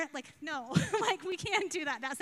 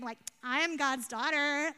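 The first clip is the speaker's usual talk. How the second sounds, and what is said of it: California Valley girl voice. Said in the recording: “That sounded really California Valley girl.”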